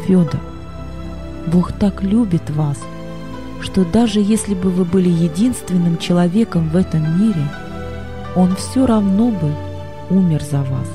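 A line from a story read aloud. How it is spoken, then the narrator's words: Soft. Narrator (Russian): Боб мягко сказал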